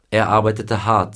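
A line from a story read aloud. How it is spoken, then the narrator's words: Plain. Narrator (German): sagte er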